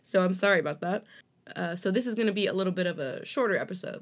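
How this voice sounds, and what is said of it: Strained, failing voice. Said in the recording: “my voice is worse off than I thought it was ... it's given out”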